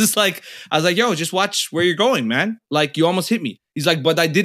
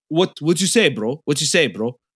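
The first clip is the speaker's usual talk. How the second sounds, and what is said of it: Imitates a slight East African accent. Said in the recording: “Somali man, East African man ... a little bit of an accent there”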